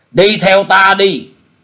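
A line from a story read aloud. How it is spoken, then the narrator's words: Resentful grumbling. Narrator (Vietnamese): quái nhân ấy hậm hực bảo chàng rằng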